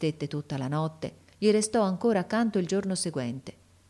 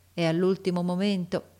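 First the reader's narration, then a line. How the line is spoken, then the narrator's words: Plain, doctor. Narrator (Italian): disse il medico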